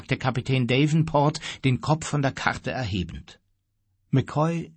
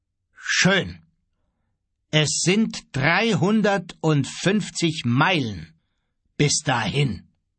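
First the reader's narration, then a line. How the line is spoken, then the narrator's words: Very slow and firm. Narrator (German): Kapitän Davenport sprach sehr langsam und entschieden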